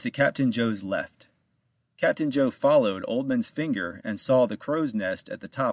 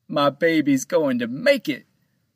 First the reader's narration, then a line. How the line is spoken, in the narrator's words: Captain Joe cried